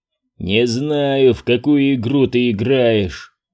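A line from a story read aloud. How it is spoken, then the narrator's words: Growling. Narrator (Russian): рычал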